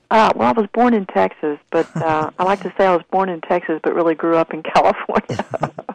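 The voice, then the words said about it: Southern American accent. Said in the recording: “Where did you get your southern accent? ... you sound like home. Sound like the same kind of accent.”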